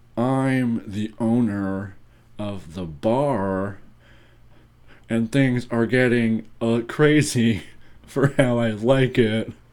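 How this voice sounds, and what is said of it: Imitates another person's voice. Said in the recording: “you do your impression of Nick Cage”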